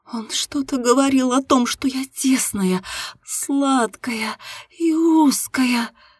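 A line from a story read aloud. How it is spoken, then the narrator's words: Moaning. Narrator (Russian): простонала девушка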